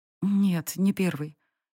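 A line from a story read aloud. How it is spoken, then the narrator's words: Barely audible reply. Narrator (Russian): едва слышно ответила Сари, побледнев сильнее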